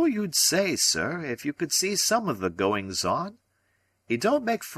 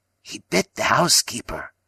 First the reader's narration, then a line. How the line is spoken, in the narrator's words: said he in a hoarse whisper